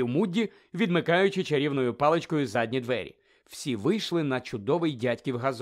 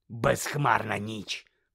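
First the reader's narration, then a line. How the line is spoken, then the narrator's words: Rasping. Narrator (Ukrainian): прохрипів Мудді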